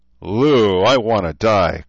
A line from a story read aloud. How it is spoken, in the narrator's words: Cruz moaned, struggling up the hill